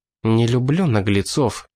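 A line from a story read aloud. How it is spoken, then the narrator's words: Through gritted teeth. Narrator (Russian): процедил через зубы Тина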